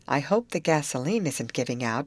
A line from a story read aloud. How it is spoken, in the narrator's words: she murmured